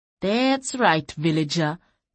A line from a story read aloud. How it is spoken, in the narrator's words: Terusa sneered